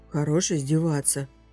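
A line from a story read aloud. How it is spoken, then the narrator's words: Embarrassed grumble. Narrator (Russian): буркнул раскрасневшийся Джейк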